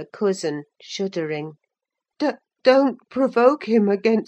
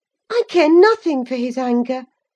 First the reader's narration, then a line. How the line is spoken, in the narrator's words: exclaimed Cathy, imagining she would be its object